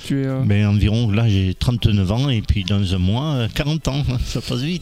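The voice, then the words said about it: Toulouse French accent. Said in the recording (French): “Avec l'accent? ... Accent toulousain”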